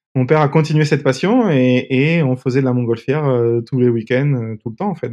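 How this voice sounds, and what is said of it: Slight sing-song southern French accent. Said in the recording (French): “un petit accent chantant du sud”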